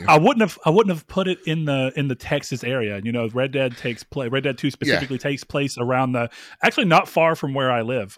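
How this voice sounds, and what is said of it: Noticeable Southern drawl. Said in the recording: “do you feel like I have Southern drawl at all?... Oh, yeah, you definitely do... It's notable, but like it's not distracting.”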